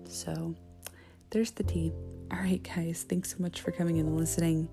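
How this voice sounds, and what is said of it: Quiet, low speaking voice. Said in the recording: “I sound really quiet ... I'm talking in a low voice.”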